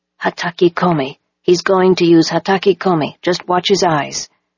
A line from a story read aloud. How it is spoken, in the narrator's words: Nobu whispered